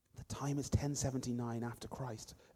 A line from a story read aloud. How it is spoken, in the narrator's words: Ophiria whispered to me